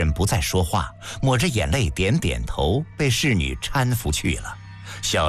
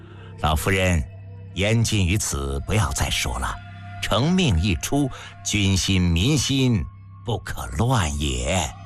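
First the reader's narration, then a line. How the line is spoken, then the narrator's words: Sighing, soothing. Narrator (Chinese): 平原君叹息一声抚慰道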